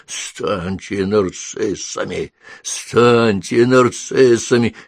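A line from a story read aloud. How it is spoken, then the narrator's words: Hoarse wheeze. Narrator (Russian): сипела она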